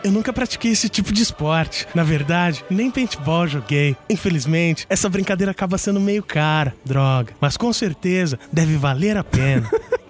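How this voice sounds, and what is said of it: Imitates another person's voice. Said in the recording (Portuguese): “com a voz dele.”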